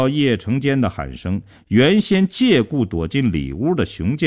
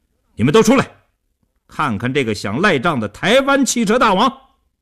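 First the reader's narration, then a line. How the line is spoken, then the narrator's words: Fierce raised shout. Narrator (Chinese): 叶成坚恶狠狠地盯着刘少坤，提高声音对里屋喊道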